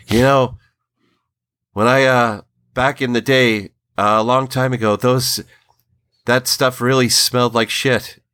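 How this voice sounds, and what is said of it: Stephen King impression. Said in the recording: “try and do my best Stephen King impression here, which is not that great”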